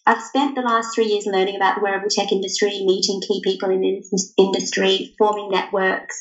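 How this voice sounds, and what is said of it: Australian accent. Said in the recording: “I'm from Australia, if you can't tell from my accent.”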